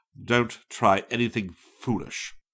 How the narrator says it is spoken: the tallest of the two men snapped

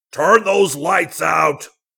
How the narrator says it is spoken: yelled

